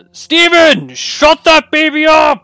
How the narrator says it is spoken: a voice from the house next door shouting

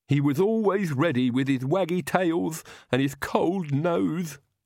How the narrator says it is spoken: Igor sobbed

